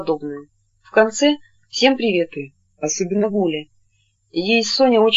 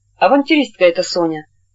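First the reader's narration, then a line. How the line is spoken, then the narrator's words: Angry. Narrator (Russian): сердито сказала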